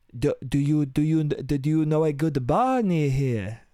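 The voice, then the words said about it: Mock French accent. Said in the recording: “You hear a French accent ... Because she talks like this ... She sounds fucking weird”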